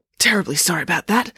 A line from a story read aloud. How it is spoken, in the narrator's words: said the parachutist in a husky voice